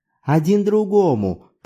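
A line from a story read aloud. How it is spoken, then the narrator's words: Laughing correction. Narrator (Russian): поправил я, засмеявшись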